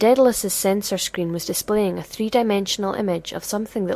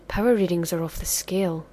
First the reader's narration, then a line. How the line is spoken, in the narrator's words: From the back, one of the techs said softly